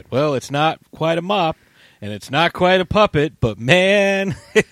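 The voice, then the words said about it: Bad Simpsons cartoon impression. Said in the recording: “terrible Simpsons impression.”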